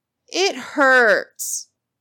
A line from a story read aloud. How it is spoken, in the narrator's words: Ginny whined